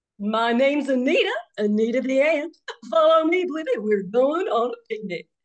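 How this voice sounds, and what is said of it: British take on Southern accent. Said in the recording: “a British version of a Southern accent”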